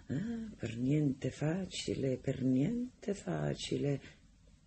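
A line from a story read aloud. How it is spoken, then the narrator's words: Murmured. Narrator (Italian): mormorava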